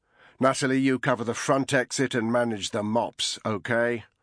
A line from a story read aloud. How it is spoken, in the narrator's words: Although still conversational, his tone brooked no objection